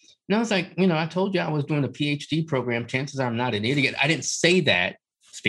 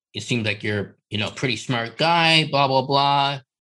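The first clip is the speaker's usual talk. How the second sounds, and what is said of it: Imitates another person's voice. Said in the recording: “I don't know why I'm doing that voice”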